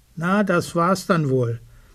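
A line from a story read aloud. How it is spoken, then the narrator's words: Wolf calling out. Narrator (German): Der Wolf überholt ihn fix und ruft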